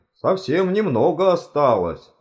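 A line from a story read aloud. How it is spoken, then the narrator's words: Exclaimed. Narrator (Russian): воскликнул он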